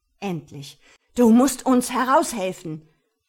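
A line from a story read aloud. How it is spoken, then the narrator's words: Shouting over battle noise. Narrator (German): brüllte ich gegen den Kampflärm an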